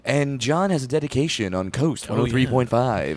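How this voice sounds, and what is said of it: Put-on radio DJ voice. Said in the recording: “radio voice ... At first you was your regular speaking voice, and now you're like”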